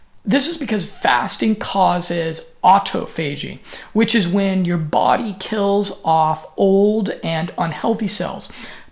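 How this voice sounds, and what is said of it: Speaks with a noticeable accent. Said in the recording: “hopefully you're understanding my funny accent.”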